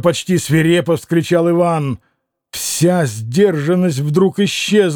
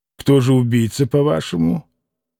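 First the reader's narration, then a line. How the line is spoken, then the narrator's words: Cold, haughty question. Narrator (Russian): Как-то холодно, по-видимому, спросил он, и какая-то даже высокомерная нотка прозвучала в тоне вопроса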